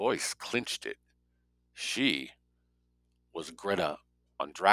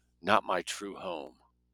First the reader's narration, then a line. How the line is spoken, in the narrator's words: She whispered